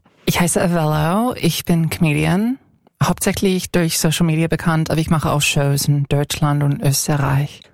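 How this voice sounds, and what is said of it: American accent speaking German. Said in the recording (German): “Du hast einen Akzent? ... Ich komme aus den USA, ich komme aus Kalifornien”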